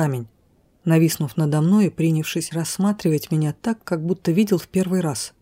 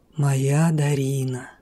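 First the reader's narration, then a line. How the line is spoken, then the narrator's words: Husky, admiring voice. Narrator (Russian): В его хрипловатом, ласкающем мой слух голосе звучало восхищение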